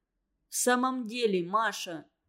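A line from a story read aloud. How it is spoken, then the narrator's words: Dejected sigh. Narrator (Russian): Уныло вздохнул Семушкин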